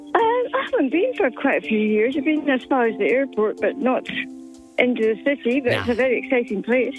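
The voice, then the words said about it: Scottish accent. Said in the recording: “I think I detect an accent. ... Scotland. ... you got the Scottish heritage”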